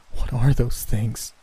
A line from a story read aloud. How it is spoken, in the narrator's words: Nicole asked, her voice shaking